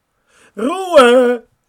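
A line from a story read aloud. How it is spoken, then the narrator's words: Called out. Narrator (German): rief Onkel Alfred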